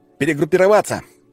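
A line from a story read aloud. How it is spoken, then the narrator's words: Shout. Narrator (Russian): выкрикнул я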